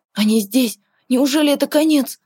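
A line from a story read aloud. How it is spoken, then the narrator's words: Confused, frightened mutter. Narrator (Russian): Плохо понимая, что происходит, испуганно пробормотал он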